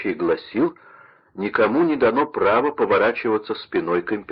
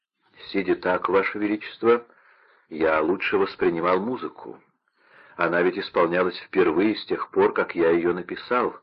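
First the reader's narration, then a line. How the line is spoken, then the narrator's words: Plain. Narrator (Russian): ответил Гайдн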